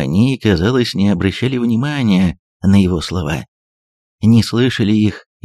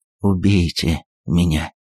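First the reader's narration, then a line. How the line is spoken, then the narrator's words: Fearful whisper through clenched teeth. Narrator (Russian): Думая, что его подвергнут чему-то вроде пытки, Вениций прошептал сквозь сжатые зубы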